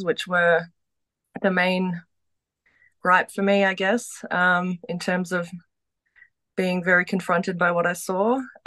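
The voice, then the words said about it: Australian accent. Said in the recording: “you're Australian... If you couldn't tell from her accent”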